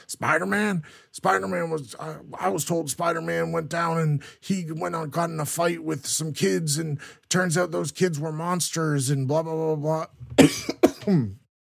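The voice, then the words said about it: Imitated blustering news-anchor character voice. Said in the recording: “I can't do that voice. ... like Alex Jones, like caricature”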